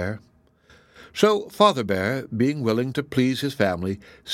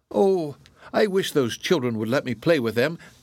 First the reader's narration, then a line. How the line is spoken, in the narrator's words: cried Little Bear